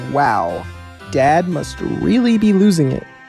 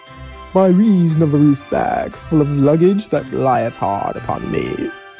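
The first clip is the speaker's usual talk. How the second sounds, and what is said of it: Old-fashioned archaic English-sounding accent. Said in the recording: “Did you get a load of that accent? He sounds like something out of the 1600s.”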